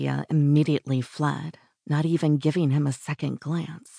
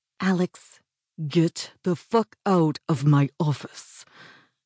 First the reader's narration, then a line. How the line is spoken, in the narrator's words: snarled